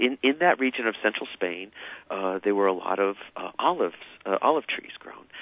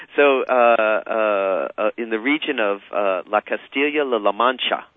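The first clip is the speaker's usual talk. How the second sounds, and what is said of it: Faked Spanish accent on place name. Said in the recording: “anybody who really speaks Spanish will know immediately that I'm faking it on my accent.”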